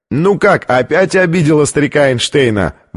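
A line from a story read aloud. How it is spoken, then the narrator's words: Shout amid laughter. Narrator (Russian): выкрикнул один из них, и все разразились хохотом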